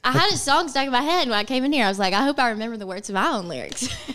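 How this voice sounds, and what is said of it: Southern US accent, Alabama. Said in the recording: “it's my accent ... I have the same accent ... I'm from Arkansas. You're from... Alabama.”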